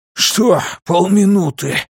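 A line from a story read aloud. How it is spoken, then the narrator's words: Hoarse rasp. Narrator (Russian): прохрипел он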